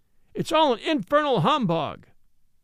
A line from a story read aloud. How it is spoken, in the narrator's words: A boy in the gallery cried in a loud tone